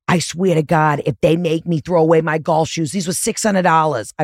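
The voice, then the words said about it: Thick put-on accent imitating someone. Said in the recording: “I don't know why I'm giving him such a thick accent right now”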